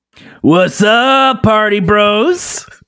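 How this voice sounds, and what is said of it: Raspy frat boy party voice. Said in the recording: “Is that your party voice? ... That's my frat boy voice. ... It's a little raspy because of all the yelling I've been doing.”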